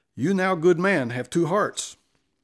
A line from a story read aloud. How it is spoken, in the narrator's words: Cheering and laughing, exclaim